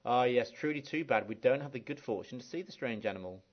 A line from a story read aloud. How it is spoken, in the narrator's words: another one sighed